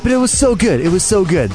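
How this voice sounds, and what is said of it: Imitates another person's voice. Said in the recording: “That's my Jimmy Fallon impression.”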